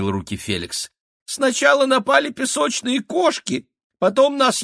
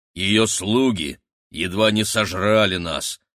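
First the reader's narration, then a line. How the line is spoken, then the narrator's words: Gloomy. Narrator (Russian): мрачно сказала Рогнеда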